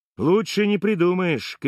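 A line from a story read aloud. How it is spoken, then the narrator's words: Gleeful shout in ear. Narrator (Russian): кричит мне в ухо и оскабливается радостно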